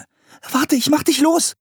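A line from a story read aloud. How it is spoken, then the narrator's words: Calling out. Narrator (German): rief Anne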